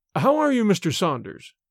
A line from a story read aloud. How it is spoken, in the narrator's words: cried the banker, cordially